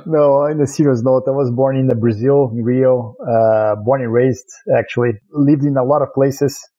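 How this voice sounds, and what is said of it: Brazilian accent. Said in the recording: “everyone's going to hear your accent as soon as you start talking ... this Brazilian accent”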